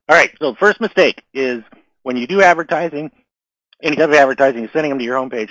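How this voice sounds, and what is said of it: Voice giving out, strained. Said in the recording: “I'm losing my voice here. ... losing my voice.”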